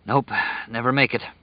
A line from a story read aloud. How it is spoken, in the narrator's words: he panted